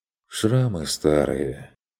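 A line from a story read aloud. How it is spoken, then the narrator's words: Heavy sorrowful sigh. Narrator (Russian): Стрик и тяжело вздохнул, словно получивший печальное известие родственник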